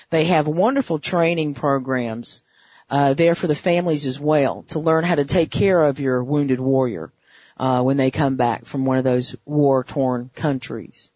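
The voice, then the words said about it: Hoarse, worn-out voice. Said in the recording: “my voice is just about shot”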